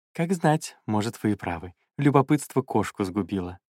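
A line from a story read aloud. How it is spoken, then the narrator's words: Soft, heartfelt young man. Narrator (Russian): еще более мягко и проникновенно сказал юноша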